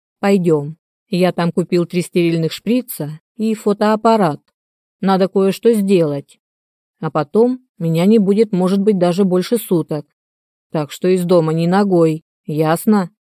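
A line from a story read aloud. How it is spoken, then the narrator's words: Stern question. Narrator (Russian): спросил строго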